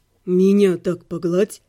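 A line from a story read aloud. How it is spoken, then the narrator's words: Hoarse, tender, drawling vowels. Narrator (Russian): хрипло сказал мне в ухо ласковый голос, слегка растягивающий гласные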